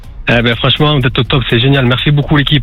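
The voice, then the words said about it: Southern French Marseille accent. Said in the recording (French): “j'ai reconnu ce petit accent... sud”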